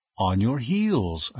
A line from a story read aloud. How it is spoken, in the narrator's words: I replied gently